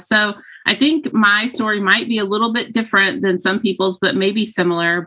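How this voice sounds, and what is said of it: Southern Texan drawl. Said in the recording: “fellow Texan. Yeah, Southern draw ... listen to the accent”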